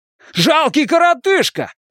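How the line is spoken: Yelling. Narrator (Russian): заорал он на Хейлса

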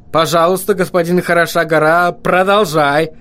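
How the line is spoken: Shouted over noise. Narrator (Russian): крикнул Вильям так, чтобы гном услышал его сквозь вопли и лай

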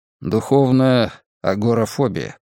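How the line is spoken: Muttered. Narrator (Russian): пробормотал я

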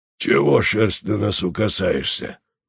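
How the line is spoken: Hoarse rasp. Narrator (Russian): прохрипел он

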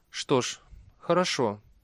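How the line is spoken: Quiet. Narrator (Russian): тихо ответила Глэдия

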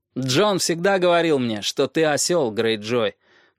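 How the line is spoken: Loud reply. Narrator (Russian): громко отвечал Роб

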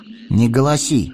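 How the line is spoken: Stern. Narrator (Russian): строго сказал он

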